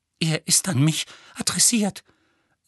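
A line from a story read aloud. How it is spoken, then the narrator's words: Trembling voice. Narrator (German): sagte Petunia mit zitternder Stimme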